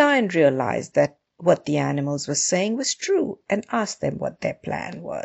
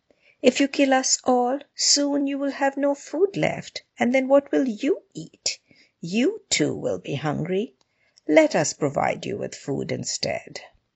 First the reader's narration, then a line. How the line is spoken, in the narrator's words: the animals said timidly